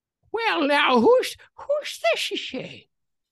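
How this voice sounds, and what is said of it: Old man voice. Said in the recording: “I've been working on my old man voice”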